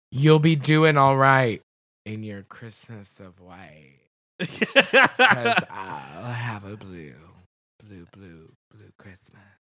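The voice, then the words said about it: Imitates another person's singing voice. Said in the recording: “That was very pheromone. ... Impersonation of pheromone.”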